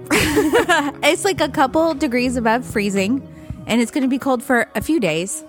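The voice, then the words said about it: Voice still sounds sick. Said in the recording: “I'm recovering from being sick. You can still hear it in my voice.”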